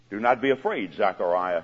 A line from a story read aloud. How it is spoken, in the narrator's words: he said